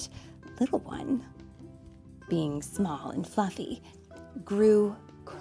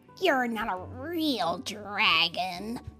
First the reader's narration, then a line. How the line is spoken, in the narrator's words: they sneered